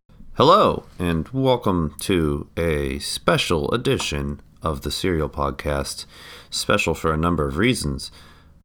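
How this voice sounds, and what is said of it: Congested, snotty sick voice. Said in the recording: “I am quite sick ... my voice might sound a little snotty”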